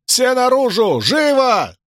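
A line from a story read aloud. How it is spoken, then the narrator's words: Shouting. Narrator (Russian): заорал Мэтью в зияющую дыру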